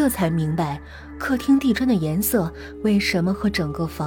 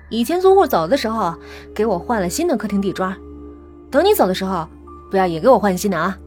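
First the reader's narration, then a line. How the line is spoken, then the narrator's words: Joking. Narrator (Chinese): 房东 和我开了句玩笑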